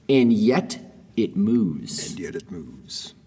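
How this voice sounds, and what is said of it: Dramatic movie trailer narrator voice. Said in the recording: “that was a like a, a, movie trailer voice right there”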